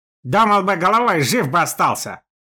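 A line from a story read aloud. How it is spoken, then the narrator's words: Snapping retort. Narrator (Russian): огрызнулся Степан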